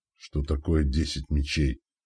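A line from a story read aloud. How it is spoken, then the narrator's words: Grumbling. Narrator (Russian): проворчал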